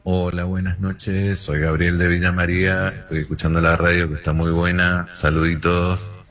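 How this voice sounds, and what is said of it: Radio announcer-style voice. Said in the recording (Spanish): “tenés una voz de locutor tremendo”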